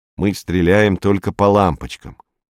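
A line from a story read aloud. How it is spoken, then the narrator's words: Grumbling. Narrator (Russian): проворчал Матти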